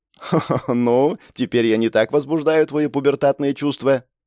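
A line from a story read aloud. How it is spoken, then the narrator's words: Laughing question. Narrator (Russian): смеясь спросила она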